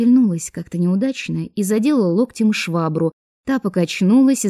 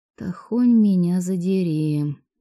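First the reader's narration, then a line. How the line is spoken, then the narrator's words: Silent inner groan. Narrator (Russian): мысленно простонала я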